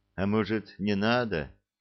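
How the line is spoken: Sad question. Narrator (Russian): грустно спросил Несвидов

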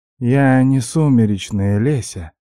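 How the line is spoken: Muffled melodic breath. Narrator (Russian): глухо и мелодично выдохнул

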